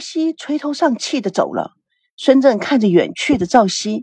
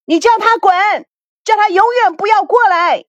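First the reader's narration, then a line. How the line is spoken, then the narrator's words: Loud shouting. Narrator (Chinese): 孙娜在房间里大声的喊着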